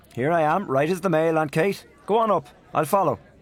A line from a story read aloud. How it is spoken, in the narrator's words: called out Gabriel from the dark